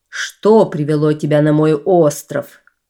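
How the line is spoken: Menacing chief's question. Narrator (Russian): грозно спросил вождь

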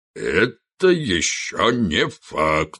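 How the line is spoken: Booming drone. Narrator (Russian): снова прогудел тот же голос

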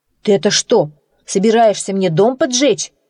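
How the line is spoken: Shouting. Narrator (Russian): кричал он

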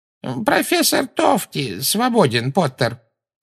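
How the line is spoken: Creaky voice. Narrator (Russian): проскрипел Флитвик

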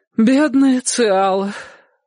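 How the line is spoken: Sighing. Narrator (Russian): вздохнула тетушка

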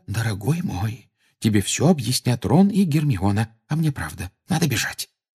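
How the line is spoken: Anxious whisper. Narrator (Russian): встревоженно прошептала миссис Уизли

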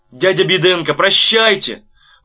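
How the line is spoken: Sudden full-force shout. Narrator (Russian): вдруг изо всех сил крикнул Ваня

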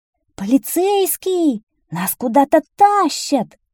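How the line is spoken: Shouting, several voices. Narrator (Russian): кричали нытики

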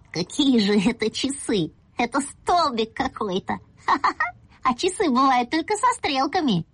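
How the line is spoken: Quiet laughing speech. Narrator (Russian): засмеялся тихонечко и говорю папе

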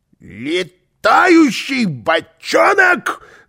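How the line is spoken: Yelling. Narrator (Russian): завопил он

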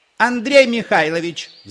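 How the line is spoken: Woman shouting from another room. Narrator (Russian): закричал женский голос из комнаты

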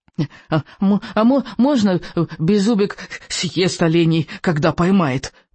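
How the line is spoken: Squeaky. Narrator (Russian): пропищал Беззубик

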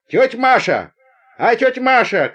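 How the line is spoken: Girl shouting. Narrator (Russian): крикнула одна из девушек

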